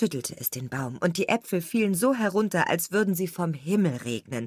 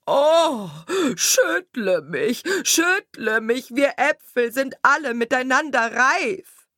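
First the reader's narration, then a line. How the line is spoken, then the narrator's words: Calling out. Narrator (German): rief ihm zu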